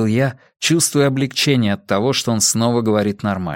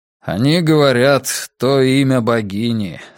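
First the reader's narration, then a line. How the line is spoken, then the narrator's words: Grim. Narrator (Russian): сказал Брус мрачно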